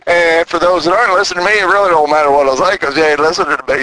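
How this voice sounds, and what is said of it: Southern twang accent. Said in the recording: “my twang is getting a little twangier ... they talk twangy down here in Tennessee ... a little stronger twang than my Texas twang”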